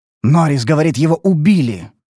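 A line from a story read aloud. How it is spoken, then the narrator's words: Yelling over a siren. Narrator (Russian): завопил, перекрикивая сирену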